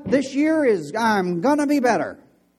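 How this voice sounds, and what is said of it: Showy carnival barker delivery. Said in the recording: “talking like a carnival barker”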